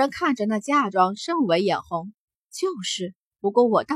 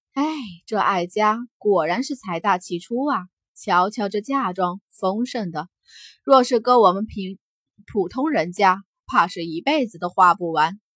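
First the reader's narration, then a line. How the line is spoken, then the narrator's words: Crowd sighing softly. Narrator (Chinese): 众人纷纷轻叹出声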